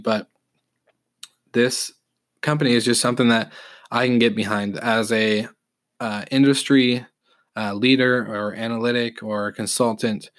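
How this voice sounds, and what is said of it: Slightly raspy voice from a cold. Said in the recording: “getting over a little cold, feeling a little raspy”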